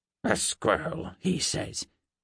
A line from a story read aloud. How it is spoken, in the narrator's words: she grunted